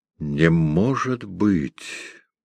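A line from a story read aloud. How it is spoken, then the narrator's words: Quiet, deliberate, measured. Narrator (Russian): проговорил он тихо и раздельно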